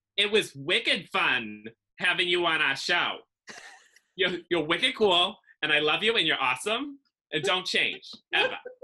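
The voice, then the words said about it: Nasal Massachusetts accent. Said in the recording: “I have like this nasally, awful, like feminine Massachusetts accent that I hate ... in that accent”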